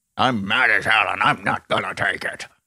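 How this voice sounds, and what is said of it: Impression of a famous movie line. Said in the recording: “That's a great impression.”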